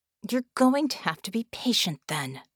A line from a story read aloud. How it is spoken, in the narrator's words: Vicky replied through clenched teeth